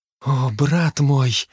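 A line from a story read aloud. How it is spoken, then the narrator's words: Breathless exhale. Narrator (Russian): выдохнула Ребекка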